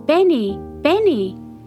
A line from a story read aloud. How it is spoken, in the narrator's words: called out with excitement